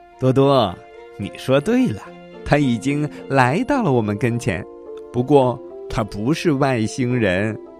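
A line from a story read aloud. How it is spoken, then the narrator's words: Laughing loudly. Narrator (Chinese): 乐迪大笑道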